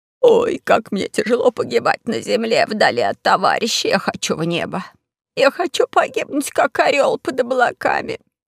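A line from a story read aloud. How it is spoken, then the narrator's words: Moaning vice-marshal. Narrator (Russian): стонал вице-маршал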